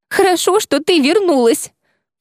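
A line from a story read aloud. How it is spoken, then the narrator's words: Sobbing. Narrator (Russian): всхлипнула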